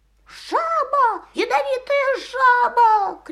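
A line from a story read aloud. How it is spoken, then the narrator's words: Shouting. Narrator (Russian): кричал он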